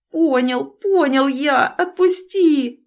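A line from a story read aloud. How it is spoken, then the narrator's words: Pleading. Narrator (Russian): взмолился Савицкий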